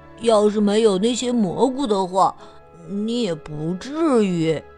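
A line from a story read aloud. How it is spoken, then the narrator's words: Guilty muttering. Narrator (Chinese): 贝里奥知道是自己做错了事，嘀咕着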